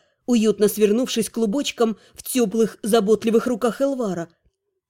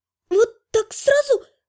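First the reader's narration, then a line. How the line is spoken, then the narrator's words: Squeak. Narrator (Russian): пискнула я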